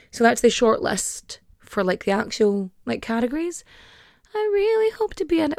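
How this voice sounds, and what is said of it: Irish Donegal accent. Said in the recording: “because of my accent that people are just going to be like, she's not in Ireland. It's like, I'm from Donegal.”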